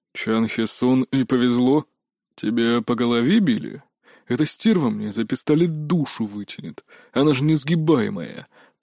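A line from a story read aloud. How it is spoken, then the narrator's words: Groaning. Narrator (Russian): простонал Мунджин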